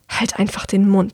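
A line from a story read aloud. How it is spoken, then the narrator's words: Hissing girl. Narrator (German): zischt das Mädchen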